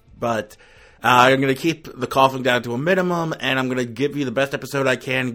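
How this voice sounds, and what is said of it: Sick, off-sounding voice. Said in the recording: “I have a cold or something, so my voice is going to sound off ... the state of my voice”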